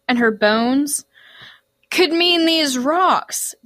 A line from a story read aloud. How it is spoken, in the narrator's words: Deucalion cried